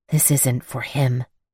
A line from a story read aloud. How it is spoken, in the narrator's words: I whispered